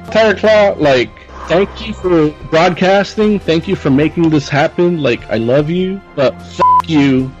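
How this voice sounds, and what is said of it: Condescending imitation of another person. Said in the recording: “impression of Larry. He's kind of condescending about when he knows things”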